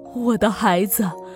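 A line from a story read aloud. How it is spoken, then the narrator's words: Tearful, panting. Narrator (Chinese): 娇儿两眼含满泪水，喘着粗气说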